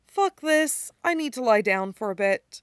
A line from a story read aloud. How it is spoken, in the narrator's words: Styles sighs and says